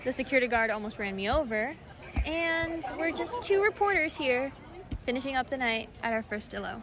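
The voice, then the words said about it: Worn-out, strained voice. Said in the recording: “My voice is gone.”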